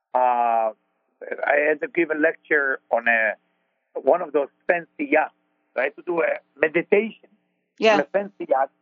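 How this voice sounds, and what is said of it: Israeli accent. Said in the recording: “I'm Israeli with my accent”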